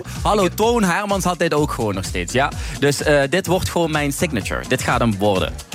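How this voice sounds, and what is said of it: Limburg Dutch accent. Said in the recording (Dutch): “Heb je dat Limburgse accent dan nog?”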